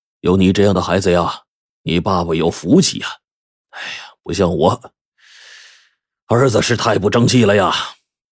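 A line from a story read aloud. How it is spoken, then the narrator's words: Sighing, deeply moved. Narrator (Chinese): 他叹了口气，感慨万千的就说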